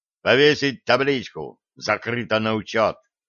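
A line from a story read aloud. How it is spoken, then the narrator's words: Angry growl. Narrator (Russian): сердито рыкнул Петр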